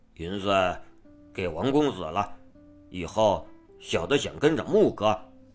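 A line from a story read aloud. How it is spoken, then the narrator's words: Stammering, hesitant. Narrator (Chinese): 高进吭哧着道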